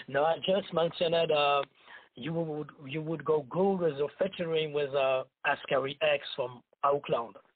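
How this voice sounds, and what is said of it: Strong accent. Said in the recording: “Your accent is kind of strong”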